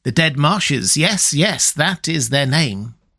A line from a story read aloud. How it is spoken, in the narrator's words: he cackled